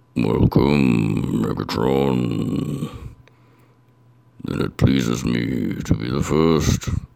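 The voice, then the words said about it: Congested Unicron character voice. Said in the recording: “hear in my voice, I'm a little under the weather ... with this chest congestion, I may be able to do a passable Unicron”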